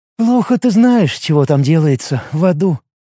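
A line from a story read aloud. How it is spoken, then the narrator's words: Sighing. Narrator (Russian): вздохнула Лига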